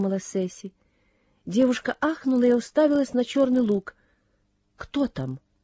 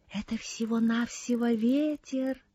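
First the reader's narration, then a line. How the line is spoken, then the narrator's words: Whisper. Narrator (Russian): прошептала Сесси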